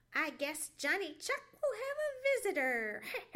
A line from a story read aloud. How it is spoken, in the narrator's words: chuckled Sammy Jay